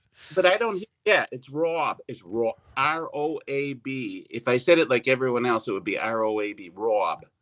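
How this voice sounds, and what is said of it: Noticeable non-standard accent. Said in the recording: “my accent... that accent... they hear your accent”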